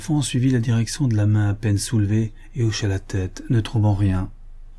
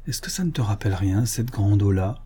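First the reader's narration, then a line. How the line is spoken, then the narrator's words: Very quiet. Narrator (French): dit-il tout bas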